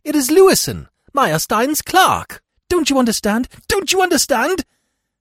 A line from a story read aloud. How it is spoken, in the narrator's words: I cried excitedly